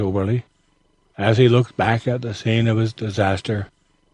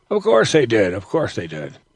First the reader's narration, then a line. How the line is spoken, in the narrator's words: replied Ben with a chuckle